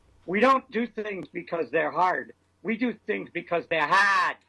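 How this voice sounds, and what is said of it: Boston accent, Kennedy impression. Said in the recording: “Thank you for that Boston accent.”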